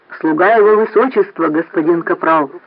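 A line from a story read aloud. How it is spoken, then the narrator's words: Barking robot. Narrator (Russian): гаркнул робот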